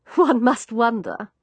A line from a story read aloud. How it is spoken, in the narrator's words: put in a different woman with a laugh